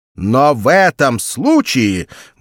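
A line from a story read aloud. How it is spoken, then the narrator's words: Loud speech. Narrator (Russian): громко заговорил Сакс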